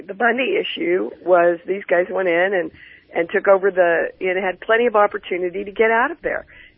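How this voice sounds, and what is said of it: Voice giving out, hoarse. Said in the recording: “my voice is going out”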